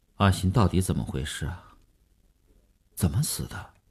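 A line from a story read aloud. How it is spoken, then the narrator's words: Muffled, sullen voice. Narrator (Chinese): 声音还是闷着气的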